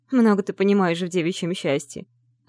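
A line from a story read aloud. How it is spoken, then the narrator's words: Laughing. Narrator (Russian): рассмеялась Салли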